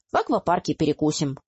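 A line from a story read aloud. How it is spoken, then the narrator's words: Cheerful. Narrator (Russian): бодро заявил Алекс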